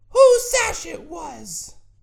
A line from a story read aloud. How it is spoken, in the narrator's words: In a shrill voice, the teacher asked